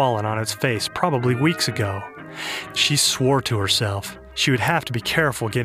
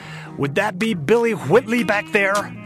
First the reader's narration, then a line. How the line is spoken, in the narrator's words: she shouted